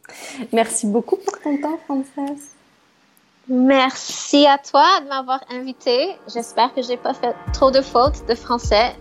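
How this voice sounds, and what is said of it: Speaks French with an accent. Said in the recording (French): “j'adore ton accent”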